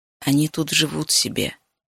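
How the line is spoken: Quiet. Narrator (Russian): тихо сказал он

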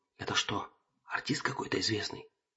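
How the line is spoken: Whisper. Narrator (Russian): зашептал он

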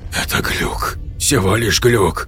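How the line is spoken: Whispered. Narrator (Russian): прошептал Виктор

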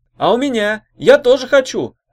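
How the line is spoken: Young woman shouting. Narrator (Russian): крикнула другая девица

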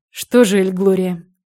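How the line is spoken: Doctor's sigh. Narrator (Russian): вздохнул доктор

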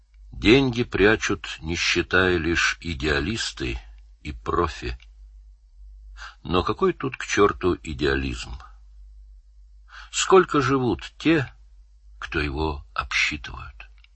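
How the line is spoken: Thoughtful. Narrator (Russian): Фрол задумчиво сказал

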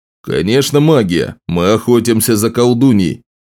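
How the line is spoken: Plain. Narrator (Russian): сказал Ларс

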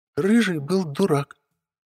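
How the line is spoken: Snapped. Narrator (Russian): огрызнулась Юлька

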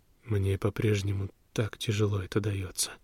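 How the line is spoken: Quiet speech. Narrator (Russian): проговорил он тихо

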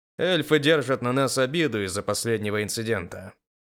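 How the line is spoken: Displeased grumble. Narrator (Russian): с недовольным лицом проворчал

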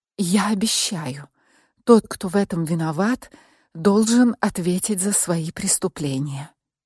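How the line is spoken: Barely audible rustling whisper. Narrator (Russian): еле слышно прошелестела я

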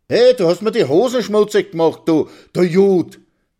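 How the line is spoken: Shouting. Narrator (German): schreit Karl

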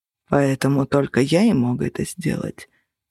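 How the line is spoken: Quiet. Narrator (Russian): тихо сказал Минчарос

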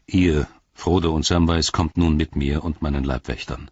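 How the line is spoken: Plain. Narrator (German): sagte Faramir

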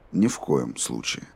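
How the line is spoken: Even-voiced reply. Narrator (Russian): ровным голосом ответил Роланд

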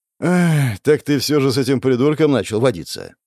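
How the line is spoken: Rider sighing. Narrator (Russian): вздохнул всадник

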